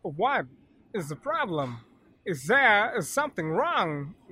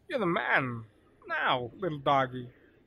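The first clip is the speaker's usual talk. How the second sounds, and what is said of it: Poor imitation of another man's voice. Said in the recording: “worst impression ... you sound nothing like him”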